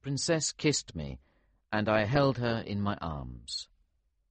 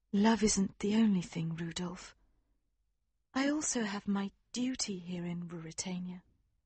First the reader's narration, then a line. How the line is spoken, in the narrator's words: she said gently